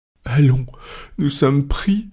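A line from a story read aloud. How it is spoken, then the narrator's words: Dismayed exclamation. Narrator (French): s'écria en se laissant aller sur une chaise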